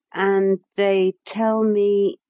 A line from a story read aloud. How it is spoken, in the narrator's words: he said in a slow voice